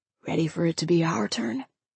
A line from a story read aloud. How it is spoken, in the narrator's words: Now he whispered